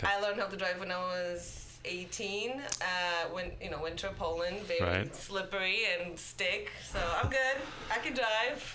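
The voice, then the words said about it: Polish accent. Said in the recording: “I'm from Poland. ... Oh, that's what the accent is.”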